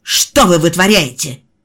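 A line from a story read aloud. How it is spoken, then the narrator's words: Barked. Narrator (Russian): рявкнула женщина в униформе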